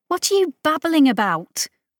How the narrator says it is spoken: Molly snapped at him

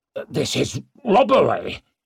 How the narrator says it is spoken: spluttered

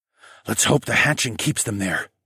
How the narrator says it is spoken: I whispered

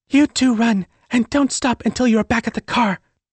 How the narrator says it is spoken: Sophie whispered to my mind

